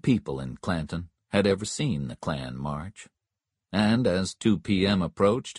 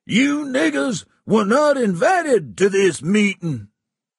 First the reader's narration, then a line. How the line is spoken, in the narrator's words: Stump screamed into the microphone